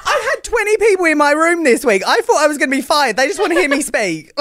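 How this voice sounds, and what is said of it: British English accent. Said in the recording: “They just want to listen to your fancy British accent”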